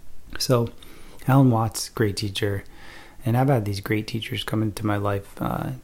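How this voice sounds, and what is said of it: Slightly funny voice, holding back cough. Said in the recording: “I'm trying not to cough right now, so my voice sounds a little funny because I still am getting over this cough”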